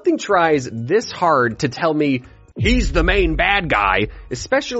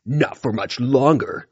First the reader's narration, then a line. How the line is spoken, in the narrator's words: Tiger Claw growled